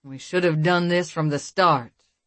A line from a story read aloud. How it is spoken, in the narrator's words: the male sighed, his voice husky and deep